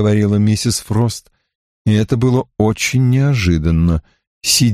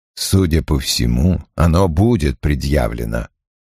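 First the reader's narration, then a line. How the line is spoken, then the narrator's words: Dry reply. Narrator (Russian): сухо ответил Крэмер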